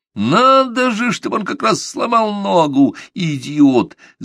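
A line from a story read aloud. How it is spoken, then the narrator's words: Boss yelling. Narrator (Russian): завопил большой босс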